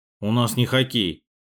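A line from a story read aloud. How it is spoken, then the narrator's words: Angry mutter. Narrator (Russian): буркнул новенький сердито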